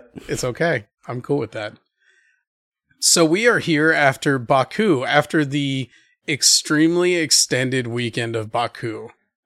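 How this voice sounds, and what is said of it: Hoarse, sick, husky voice. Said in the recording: “I apologize for how my voice sounds to you and to the listening public. I'm fighting off whatever's going around ... You're going for that sultry.”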